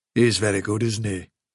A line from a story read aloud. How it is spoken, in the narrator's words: said Silver